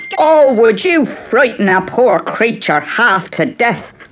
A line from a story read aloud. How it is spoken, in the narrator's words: cried the leprechaun, and his little heart pounded